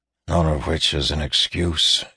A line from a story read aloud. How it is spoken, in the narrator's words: he eventually finished softly